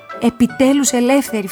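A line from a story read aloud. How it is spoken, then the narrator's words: Shouted. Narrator (Greek): φωνάζω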